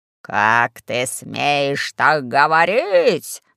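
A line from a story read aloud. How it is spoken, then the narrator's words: Growling fat man. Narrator (Russian): зарычал толстяк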